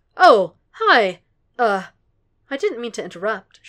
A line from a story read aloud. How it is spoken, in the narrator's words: she says